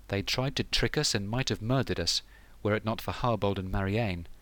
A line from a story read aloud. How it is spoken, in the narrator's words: said Osber